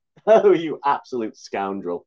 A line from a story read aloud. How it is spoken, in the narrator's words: chuckled Johnny